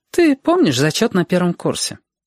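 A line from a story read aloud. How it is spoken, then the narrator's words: Woman, light and cheerful. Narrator (Russian): Женщина говорила легко и даже весело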